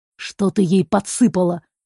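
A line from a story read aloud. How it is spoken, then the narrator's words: Angry whisper. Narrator (Russian): шепчет он зло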